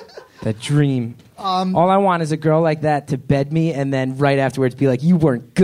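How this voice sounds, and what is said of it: Usual voice. Nothing is said of it.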